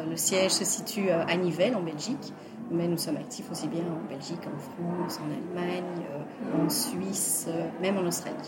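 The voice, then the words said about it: Slight Belgian French accent. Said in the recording (French): “ce petit accent qu'on va entendre de Belgique”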